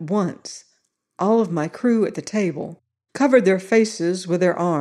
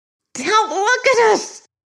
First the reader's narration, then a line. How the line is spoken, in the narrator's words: Bronowski screamed, his voice knifing toward the higher octaves